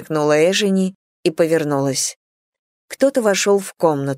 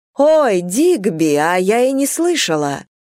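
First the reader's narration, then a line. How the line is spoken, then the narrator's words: Exclaimed. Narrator (Russian): воскликнула она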